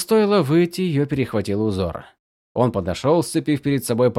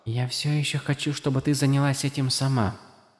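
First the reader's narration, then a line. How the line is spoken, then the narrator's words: Whisper. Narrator (Russian): прошептала ей Шалан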